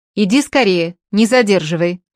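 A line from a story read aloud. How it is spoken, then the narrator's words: Shouted. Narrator (Russian): крикнул Коля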